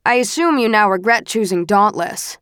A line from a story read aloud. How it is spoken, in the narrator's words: Marcus says